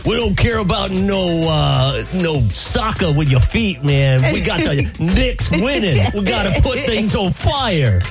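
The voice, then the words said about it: Put-on New York accent. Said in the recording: “Great New York accent.”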